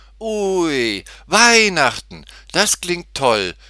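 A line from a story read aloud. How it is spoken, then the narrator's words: Excited call. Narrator (German): rief Tutti aufgeregt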